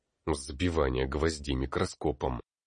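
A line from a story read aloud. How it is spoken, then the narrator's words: Muttered. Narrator (Russian): пробурчал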